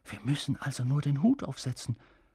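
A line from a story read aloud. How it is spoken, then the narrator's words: Whispering. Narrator (German): flüsterte Ron Harry zu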